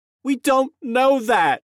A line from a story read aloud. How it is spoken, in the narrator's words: Jamie cried